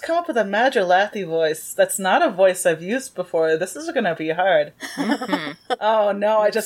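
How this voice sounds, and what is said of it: Usual voice. Nothing is said of it.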